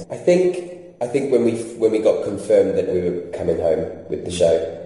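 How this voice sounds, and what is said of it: English-influenced accent. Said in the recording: “I moved to England in 2008, as you can tell by my accent”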